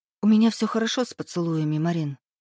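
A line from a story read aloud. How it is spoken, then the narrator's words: Quiet. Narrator (Russian): тихо сказала я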